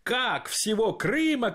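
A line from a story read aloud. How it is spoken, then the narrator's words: Crowd shouting. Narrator (Russian): кричали другие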